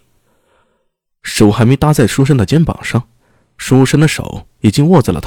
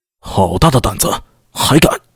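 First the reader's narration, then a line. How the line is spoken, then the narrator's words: Stern, harsh. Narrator (Chinese): 他厉声道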